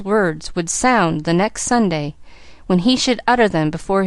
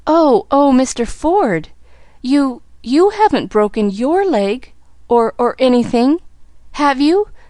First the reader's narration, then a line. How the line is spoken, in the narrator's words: she gasped